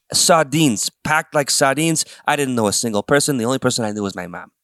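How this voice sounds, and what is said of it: Put-on New York accent. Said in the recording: “You took up the accent. ... I took up the accent, folks. Well, it was New York. It's Jersey. ... Enough of the accent.”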